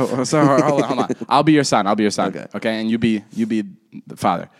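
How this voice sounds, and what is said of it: Usual voice. Nothing is said of it.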